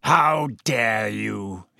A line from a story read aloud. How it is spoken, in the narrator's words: he growled, sounding suddenly like the bear-sized dog he had been